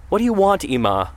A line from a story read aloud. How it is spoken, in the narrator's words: cried